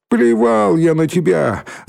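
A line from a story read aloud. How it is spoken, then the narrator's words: Shout from behind fence. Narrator (Russian): закричал Валька из-за забора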